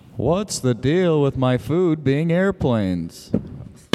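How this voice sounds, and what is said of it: Baby-like stand-up comedian impression. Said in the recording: “It's an impression of baby Jerry Seinfeld. ... You want reverb in your voice a little bit so it sounds like you're on stage?”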